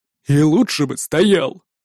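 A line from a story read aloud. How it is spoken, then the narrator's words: Grumbling. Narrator (Russian): проворчал вышедший из своей кузницы Магнус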